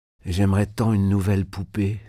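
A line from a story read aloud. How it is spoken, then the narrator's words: Sighed. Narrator (French): soupira Marie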